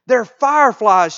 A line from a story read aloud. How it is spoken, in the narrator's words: shouted the oldest daughter